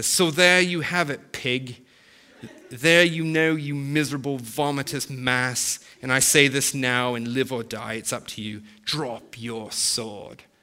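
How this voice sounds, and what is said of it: Put-on British accent. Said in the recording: “I'll try to read it with a British accent.”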